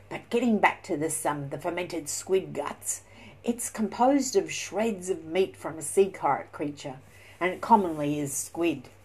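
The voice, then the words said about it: Strong Australian accent. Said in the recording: “I've got that very Aussie Aussie accent ... that Aussie little accent”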